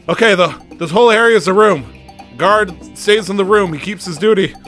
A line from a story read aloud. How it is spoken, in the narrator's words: Barney just shouting